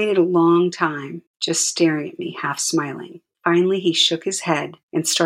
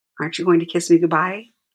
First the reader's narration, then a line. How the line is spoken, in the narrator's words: asked